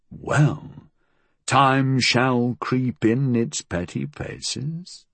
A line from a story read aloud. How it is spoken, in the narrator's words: he said softly